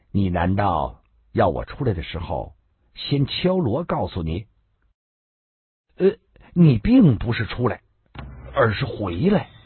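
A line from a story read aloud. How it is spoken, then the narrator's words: Cold. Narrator (Chinese): 女道士冷冷的说道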